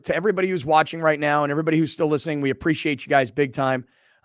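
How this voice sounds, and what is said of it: Strained, fading voice. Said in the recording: “My throat hurts ... I feel like I'm kind of losing my voice a little bit.”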